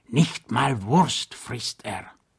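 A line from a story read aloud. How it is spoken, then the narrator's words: Whispered in ear. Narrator (German): flüsterte er ihm ins Ohr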